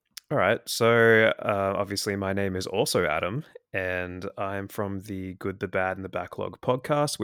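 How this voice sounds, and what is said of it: Australian accent. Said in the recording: “I'm in Australia, obviously, as you can tell from my accent.”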